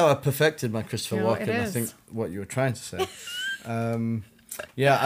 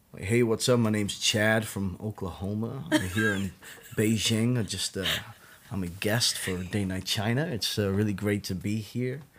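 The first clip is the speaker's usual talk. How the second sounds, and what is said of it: Put-on Southern American accent. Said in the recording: “a good American accent ... You did a good Southern kind of one. Who was your Oklahoma guy?”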